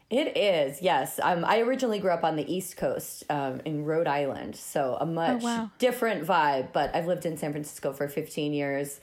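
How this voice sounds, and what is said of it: American accent. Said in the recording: “has an American accent”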